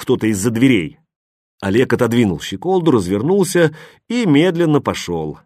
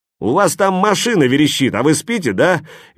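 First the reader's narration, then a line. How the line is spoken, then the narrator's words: Cheerful question. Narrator (Russian): весело спросил кто-то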